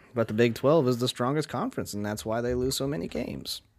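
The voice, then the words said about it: Sarcastic tone. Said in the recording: “I'm totally being sarcastic.”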